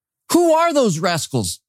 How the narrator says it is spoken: he shouted

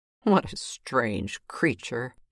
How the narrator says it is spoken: he sneered

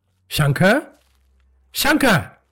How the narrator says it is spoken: called out

